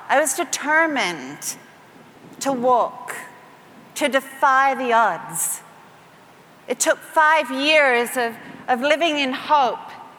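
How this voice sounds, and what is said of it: Australian-influenced accent. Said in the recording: “And I was in Australia. That's where the funny accent's from.”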